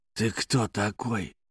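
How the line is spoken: Hissed. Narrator (Russian): прошипел он

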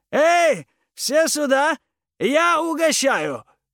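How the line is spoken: Shout. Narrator (Russian): крикнул Джо

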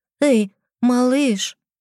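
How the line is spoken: Cautious call. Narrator (Russian): позвала осторожно

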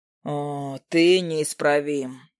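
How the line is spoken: Sighing. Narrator (Russian): я вздохнул

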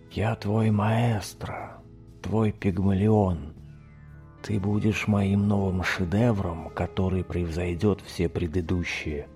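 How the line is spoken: Insinuating whisper of a mask. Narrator (Russian): вкрадчиво шептала маска

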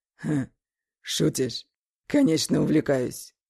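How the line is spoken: Satisfied exclamation. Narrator (Russian): Удовлетворительно воскликнул он

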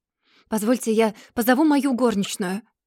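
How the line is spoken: Young woman's exclamation. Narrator (Russian): воскликнула одна из барышень, повыше ростом

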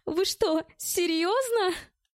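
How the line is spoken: Young woman laughing. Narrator (Russian): рассмеялась девушка

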